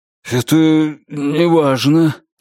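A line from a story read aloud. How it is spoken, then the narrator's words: Frightened dismissive tone. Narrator (Russian): испуганно отмахнулся он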